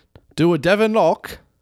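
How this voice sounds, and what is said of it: Poor put-on British accent. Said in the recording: “my terrible impression of a British accent”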